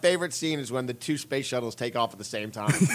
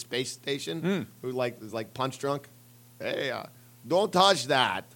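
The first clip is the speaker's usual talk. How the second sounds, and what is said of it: Poor drunk-sounding Russian accent. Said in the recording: “do a better Russian accent ... You just sound drunk ... a drunk Russian”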